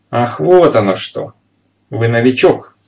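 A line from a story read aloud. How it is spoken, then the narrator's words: Exclamation. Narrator (Russian): воскликнул полицейский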